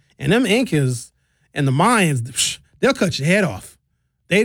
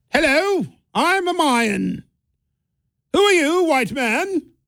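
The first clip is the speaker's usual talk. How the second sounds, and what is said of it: Posh British royal accent. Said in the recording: “I'm making the Incas and the Mayas sound like British royalty”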